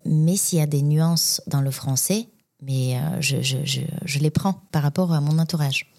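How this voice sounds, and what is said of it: Bulgarian accent in French. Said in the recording (French): “je pense que j'ai gardé mon accent bulgare et je vais le garder pour, pour la vie”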